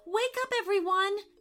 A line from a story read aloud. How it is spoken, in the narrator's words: cried Mia aloud